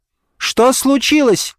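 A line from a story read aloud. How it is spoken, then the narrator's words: Daughter shouting back. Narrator (Russian): крикнула в ответ дочь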